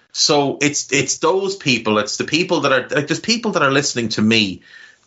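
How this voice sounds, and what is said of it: Irish Navan accent. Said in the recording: “this horrible, scummy Navan accent”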